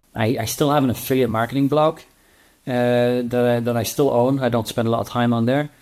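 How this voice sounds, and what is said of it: Italian accent. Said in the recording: “you're from Italy, probably hear your accent”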